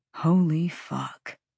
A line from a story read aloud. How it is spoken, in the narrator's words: Tristan Flynn breathed